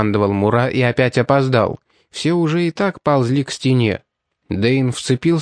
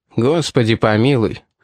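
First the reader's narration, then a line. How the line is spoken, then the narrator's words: In an undertone. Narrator (Russian): вполголоса проговорил Али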